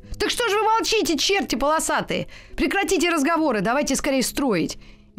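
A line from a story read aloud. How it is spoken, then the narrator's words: Shouting. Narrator (Russian): Костик прям закричал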